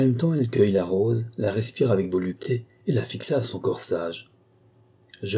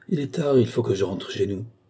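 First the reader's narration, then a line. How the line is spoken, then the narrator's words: Murmured. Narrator (French): murmurai-je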